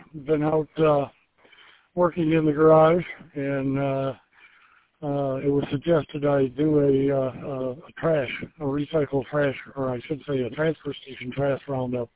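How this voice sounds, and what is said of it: Slightly out of breath. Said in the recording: “I'm a little out of breath.”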